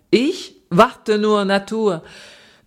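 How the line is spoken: Laughing, singing. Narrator (German): Thoma lachte und sang

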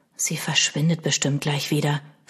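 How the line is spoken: Whisper. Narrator (German): flüsterte Milo

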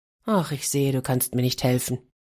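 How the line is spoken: Sigh. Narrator (German): seufzte Gobon

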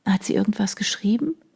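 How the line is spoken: Murmur, as quietly as possible. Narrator (German): raunte ich ihm so leise wie möglich zu

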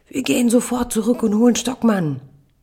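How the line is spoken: Tearful bellowing child. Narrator (German): Die Augen meiner Tochter füllen sich mit Tränen ... brüllt

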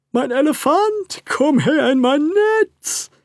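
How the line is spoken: Big robber shouting. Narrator (German): rief der große Räuber

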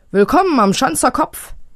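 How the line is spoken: Calling out. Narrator (German): ruft Pitt den beiden Fluggästen zu

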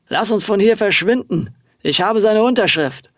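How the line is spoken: Slightly slurred speech. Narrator (German): Mit leicht lallender Stimme sprach er

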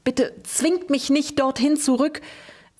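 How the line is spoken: Whimpering. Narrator (German): wimmerte er

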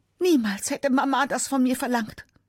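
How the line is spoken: Screamed while fleeing. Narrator (German): schreit

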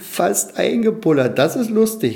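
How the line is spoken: Laughing. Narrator (German): lachten die Clownsfische

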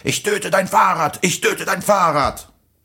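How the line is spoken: Man shouting over others. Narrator (German): Der Typ mit der Luftpumpe schrie zur gleichen Zeit

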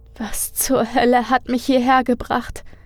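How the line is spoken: Whimpering to herself. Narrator (German): fragte Aileen sich wimmernd selbst

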